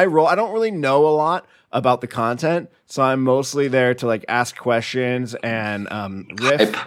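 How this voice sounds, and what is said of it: Usual voice. Nothing is said of it.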